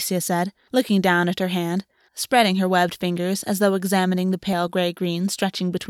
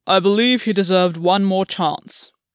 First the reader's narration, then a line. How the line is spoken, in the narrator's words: Albion said, gravely